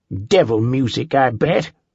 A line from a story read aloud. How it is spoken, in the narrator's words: the doctor snorted